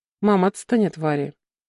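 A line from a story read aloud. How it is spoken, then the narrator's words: Sighing. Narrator (Russian): вздохнул Клим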